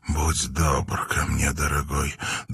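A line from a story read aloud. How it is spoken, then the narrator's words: Husky whisper. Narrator (Russian): донесся ее хрипловатый шепот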